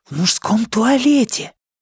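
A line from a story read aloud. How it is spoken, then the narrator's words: Whispered reply. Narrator (Russian): также шепотом ответил Джон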